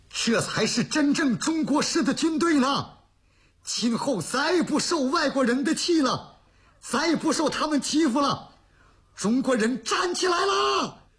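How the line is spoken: Older man, tearful emotional shout. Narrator (Chinese): 一个50多岁的老大一边擦着激动的热泪一边喊呢

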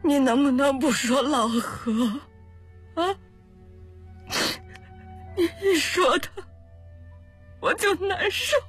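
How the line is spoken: Mother crying mournfully. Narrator (Chinese): 何春生的母亲哭了起来，哀哀地说

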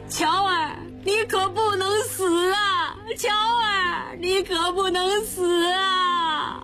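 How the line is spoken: Crying, calling out. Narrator (Chinese): 吴生哭，一边哭一边叫着

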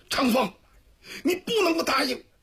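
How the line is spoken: Through clenched teeth, pained. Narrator (Chinese): 赵辉紧咬牙关，强忍着疼痛

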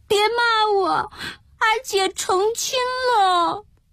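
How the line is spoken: Frightened, near tears. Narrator (Chinese): 季草……吓得要哭，说

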